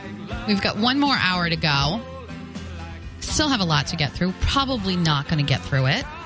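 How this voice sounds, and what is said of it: Usual voice. Nothing is said of it.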